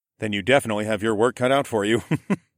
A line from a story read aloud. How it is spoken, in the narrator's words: I chuckled